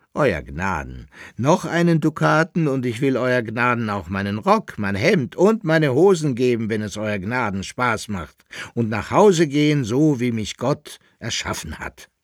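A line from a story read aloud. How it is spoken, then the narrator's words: Cheerful laughing. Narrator (German): sagte er mit einem vergnügten Lachen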